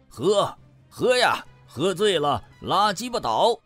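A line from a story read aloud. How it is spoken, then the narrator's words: Drunken roar. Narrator (Chinese): 吼了一嗓子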